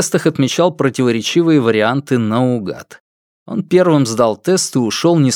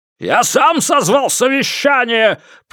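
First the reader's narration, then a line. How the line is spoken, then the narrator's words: Boss roaring. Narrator (Russian): проревел начальник отдела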